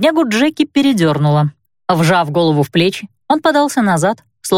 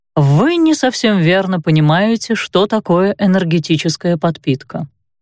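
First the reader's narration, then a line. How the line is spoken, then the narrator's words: Calm remark. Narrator (Russian): спокойно отметил он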